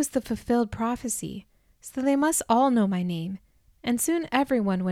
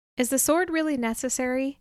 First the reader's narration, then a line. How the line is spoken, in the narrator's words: I asked